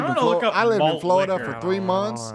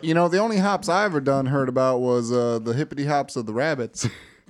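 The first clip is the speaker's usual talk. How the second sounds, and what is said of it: Put-on country accent. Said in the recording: “I started in my country accent.”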